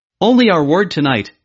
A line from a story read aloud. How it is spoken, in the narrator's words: they replied